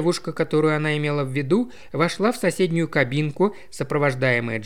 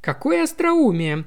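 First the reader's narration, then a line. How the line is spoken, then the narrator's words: Exclaimed. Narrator (Russian): воскликнула Таппенс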